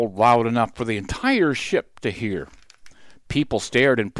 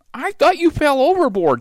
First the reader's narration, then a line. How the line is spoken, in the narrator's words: she cried, but even then she wasn't really mad